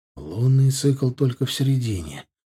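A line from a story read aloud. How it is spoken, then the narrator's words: Breathless exhale. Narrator (Russian): выдохнул Ардан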